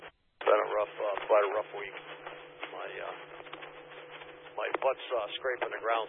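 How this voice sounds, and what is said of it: Strained, fading voice. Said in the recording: “It did not sound like you ... I'm losing my voice.”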